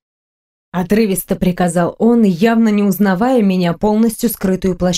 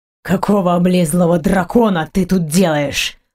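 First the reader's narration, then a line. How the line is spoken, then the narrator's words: Hissed. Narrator (Russian): прошипел Грегор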